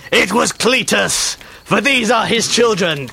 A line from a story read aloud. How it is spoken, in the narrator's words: cried the beast